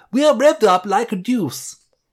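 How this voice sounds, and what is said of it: English accent. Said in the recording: “say it in an English accent”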